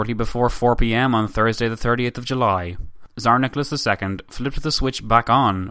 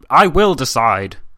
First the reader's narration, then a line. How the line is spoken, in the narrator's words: Nicholas put on a brave face and replied in a rough tone